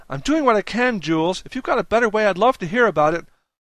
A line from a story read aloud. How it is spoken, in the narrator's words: From the kitchen, Lil barked back